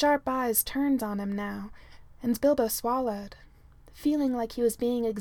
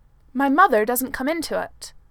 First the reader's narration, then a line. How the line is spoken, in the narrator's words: Bilbo snapped